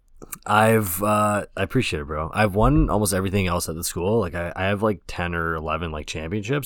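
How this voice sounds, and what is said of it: Hoarse, croaky voice. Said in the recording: “I also like lost my voice ... I was just out all night last night just eating wings and screaming ... I sound like a frog ... sounding like a frog”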